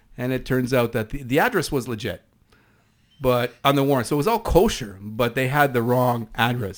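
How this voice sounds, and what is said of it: East Coast Canadian accent. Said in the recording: “pardon my East Coast accent”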